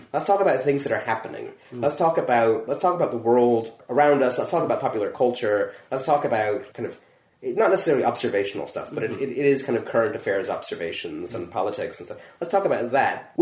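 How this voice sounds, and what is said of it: Non-local foreign accent. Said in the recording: “yes, I have an accent. ... I'm not from here.”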